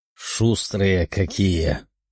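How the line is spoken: Muttering. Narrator (Russian): пробормотал Тео

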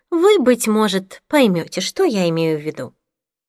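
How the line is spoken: Tired remark. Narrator (Russian): устало обронила Таня

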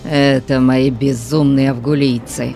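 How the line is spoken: Growling. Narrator (Russian): прорычал Конан

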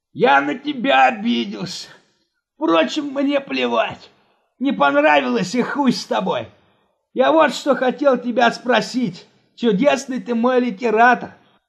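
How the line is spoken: Fawning whimper. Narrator (Russian): подобострастно захныкал Жора

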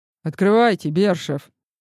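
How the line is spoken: Curator growling. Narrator (Russian): рыкнул куратор

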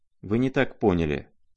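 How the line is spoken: Plain. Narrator (Russian): сказала она

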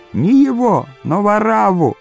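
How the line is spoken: Crowd shouting. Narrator (Russian): Иудеи кричали

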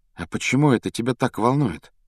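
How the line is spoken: Quiet question. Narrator (Russian): тихо спросил Гарри

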